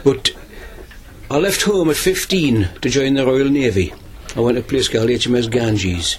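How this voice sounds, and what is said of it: Local Amble regional accent. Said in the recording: “I've lived in Amble all my life, as you can tell by the accent”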